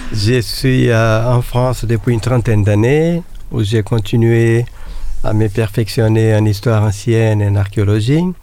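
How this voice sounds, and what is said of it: Brazilian accent speaking French. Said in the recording (French): “Je suis d'origine brésilienne. ... Vous remarquez par l'accent.”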